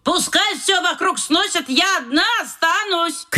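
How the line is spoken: Shouted from a distance. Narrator (Russian): крикнула тетя Паня со своего этажа

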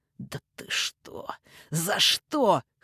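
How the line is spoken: Hoarse wheezing. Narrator (Russian): хрипел

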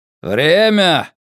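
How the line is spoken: Shout. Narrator (Russian): крикнул Касс с порога

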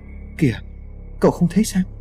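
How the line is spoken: Frightened trembling voice. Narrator (Vietnamese): Tài xế vẫn còn tỏ ra sợ hãi, run giọng nói

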